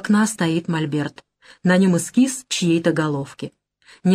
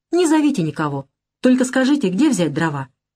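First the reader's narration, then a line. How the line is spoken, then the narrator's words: Happy laughing. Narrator (Russian): Она радостно смеется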